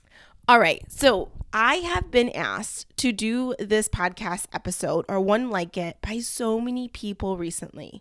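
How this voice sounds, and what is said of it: Congested, weird-sounding voice from cold. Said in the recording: “I sound weird ... I have a chest cold situation happening that I'm healing from, so forgive me if my voice sounds weird”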